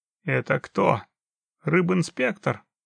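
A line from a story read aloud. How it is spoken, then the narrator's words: Grumbled. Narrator (Russian): пробурчал Муня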